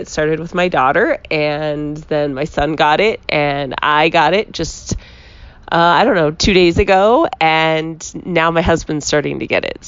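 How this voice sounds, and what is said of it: Voice with a cold, cracking. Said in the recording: “Did you hear my voice crack? ... it cracked because I have a cold.”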